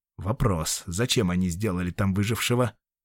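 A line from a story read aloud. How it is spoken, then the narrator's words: Barely restrained fury. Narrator (Russian): Дэн готов был зарычать от бешенства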